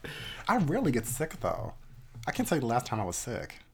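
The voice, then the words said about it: Slightly nasal, congested voice. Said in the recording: “I feel like I'm coming down with a cold. ... I sound a little nasally.”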